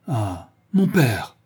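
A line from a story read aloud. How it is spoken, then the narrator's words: Scandalized exclamation. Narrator (French): s'écria Fédora, scandalisé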